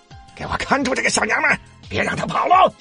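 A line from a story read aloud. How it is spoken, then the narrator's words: Loud yell in pain. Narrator (Chinese): 他痛得大声叫起来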